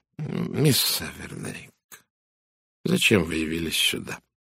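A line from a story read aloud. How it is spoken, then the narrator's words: Quiet question. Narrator (Russian): тихо спросил Пуаро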